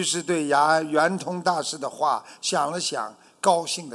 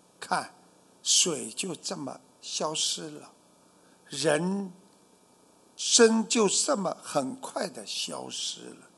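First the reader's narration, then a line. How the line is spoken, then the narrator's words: Low sighing voice. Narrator (Chinese): 圆通大师低声叹道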